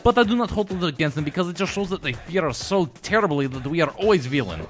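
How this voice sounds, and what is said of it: Put-on Russian movie-villain accent. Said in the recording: “The Russian accent is an easy one for me to slip into because I do a mixture of Gary Oldman from Air Force One and the mixture of other classic Russian villains”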